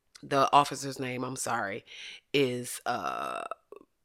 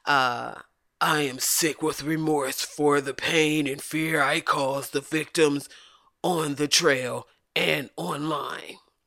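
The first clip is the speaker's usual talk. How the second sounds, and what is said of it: Imitates another person's voice. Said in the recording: “That's why I gave him that voice.”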